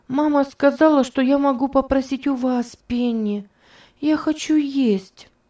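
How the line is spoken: Child's plaintive voice. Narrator (Russian): сказал ребенок жалобным голосом

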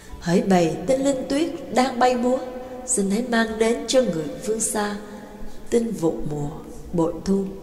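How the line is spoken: Soft gentle singing. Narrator (Vietnamese): Mã Cát nhẹ nhàng cất tiếng hát

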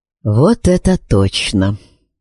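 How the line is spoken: Muttering under breath. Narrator (Russian): пробормотал себе под нос Ребус

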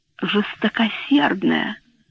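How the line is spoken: Whispered repeat. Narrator (Russian): шепотом повторила она

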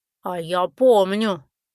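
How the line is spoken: Dreary whining creature. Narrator (Russian): унылым голосом заныл трог

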